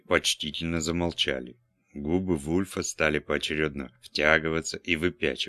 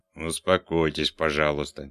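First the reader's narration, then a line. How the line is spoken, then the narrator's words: Displeased, through teeth. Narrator (Russian): недовольно процедил Вульф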